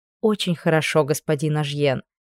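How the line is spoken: Soft. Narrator (Russian): мягко сказала я

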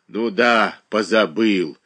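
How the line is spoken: Angry. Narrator (Russian): сердито отозвалась Глафира Васильевна

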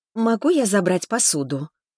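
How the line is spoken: Timid waitress asking. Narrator (Russian): робко поинтересовалась официантка

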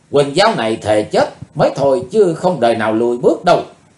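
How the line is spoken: Furious shout. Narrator (Vietnamese): Không còn dằn được cơn giận dữ nữa, Quỳnh Dao hét lên

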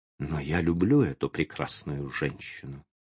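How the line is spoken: Quiet reply. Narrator (Russian): отвечал он тихо

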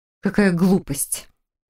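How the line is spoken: Nervous snort. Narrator (Russian): нервно фыркнула Хильда

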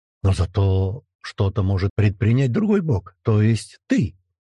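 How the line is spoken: Cheerful blurt. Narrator (Russian): брякаю радостно

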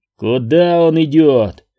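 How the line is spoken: Barked. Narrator (Russian): рявкнул Джемба

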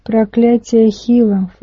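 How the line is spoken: Snorting. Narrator (Russian): фыркнул Гудзон

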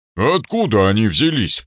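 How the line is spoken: Disgusted grumbling. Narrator (Russian): пробурчал Ульман брезгливо

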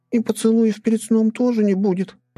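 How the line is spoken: Whimper. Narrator (Russian): прохныкала Бусинка

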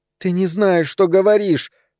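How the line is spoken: Moaning. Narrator (Russian): стонала Эльза

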